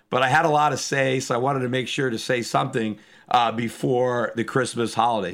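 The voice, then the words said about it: Hoarse, strained voice. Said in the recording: “I apologize for my voice. I still can't shake this laryngitis or whatever I've got ... it's not easy to talk”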